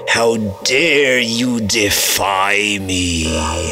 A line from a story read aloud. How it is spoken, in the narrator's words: Wolfgang sneered